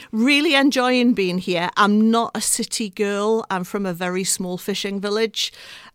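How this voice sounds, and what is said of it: Northumbrian accent, somewhat mixed. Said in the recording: “originally, I'm from Northumberland ... people have a trouble pinning down my accent, because it's kind of got a little bit weird around the edges”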